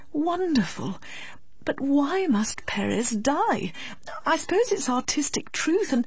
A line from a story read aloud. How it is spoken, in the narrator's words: murmured Miss Medhurst